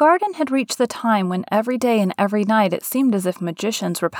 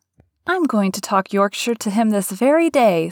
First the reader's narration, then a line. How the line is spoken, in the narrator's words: said Mary, chuckling herself